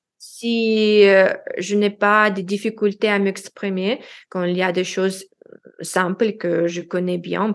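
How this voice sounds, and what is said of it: Non-native accent speaking French. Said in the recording (French): “quand ils il entend mon accent”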